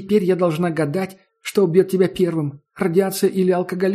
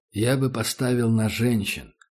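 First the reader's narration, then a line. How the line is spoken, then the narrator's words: Said quietly. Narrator (Russian): сказал таджик негромко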